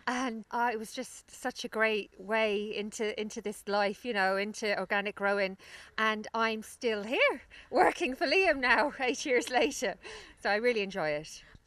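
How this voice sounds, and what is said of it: London accent. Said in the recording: “you can probably tell from my accent that I I'm from the city. I'm from London originally”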